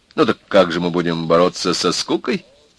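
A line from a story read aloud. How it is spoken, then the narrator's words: Cheerful question. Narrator (Russian): весело спросил Володя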